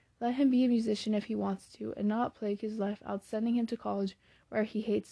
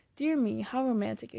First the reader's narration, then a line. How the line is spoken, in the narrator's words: exclaimed Meg